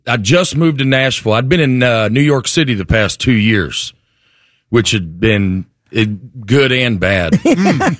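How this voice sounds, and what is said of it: Southern American accent. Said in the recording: “Let's pinpoint the accent right away. You grew up where? ... North Alabama, mm-hmm. Right outside of Huntsville.”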